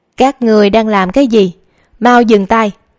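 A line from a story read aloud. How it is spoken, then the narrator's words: Loud shout. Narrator (Vietnamese): một người lớn tiếng quát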